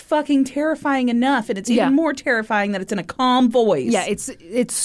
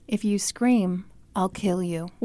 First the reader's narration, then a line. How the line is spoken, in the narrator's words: in a soft, kind voice, he said